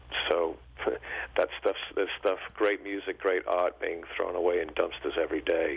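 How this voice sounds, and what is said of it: English accent. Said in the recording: “I can tell from your voice, you did not grow up in the U.S. ... I grew up in England, as you can probably tell from the accent”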